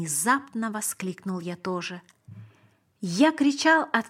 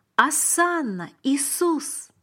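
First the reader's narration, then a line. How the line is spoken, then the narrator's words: Exclamation. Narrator (Russian): воскликнул я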